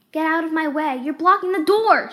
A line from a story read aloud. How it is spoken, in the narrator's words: shouted the white rabbit